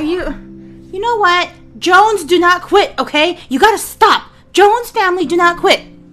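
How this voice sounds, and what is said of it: Yelling. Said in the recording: “Why are you yelling at me? ... And I'm yelling at you.”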